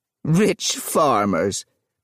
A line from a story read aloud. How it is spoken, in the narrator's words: The woman laughed angrily